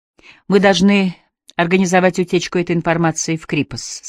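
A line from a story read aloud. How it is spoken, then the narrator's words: Plain. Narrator (Russian): сказал он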